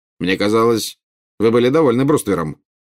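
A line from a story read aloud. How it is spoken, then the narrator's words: Cold remark. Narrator (Russian): холодно заметил Скримджер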